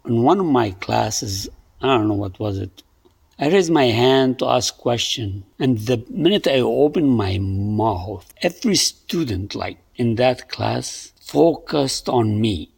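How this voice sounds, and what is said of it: Very thick accent. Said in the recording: “I didn't realize I had an accent accent till then, but now I know I have very thick accent.”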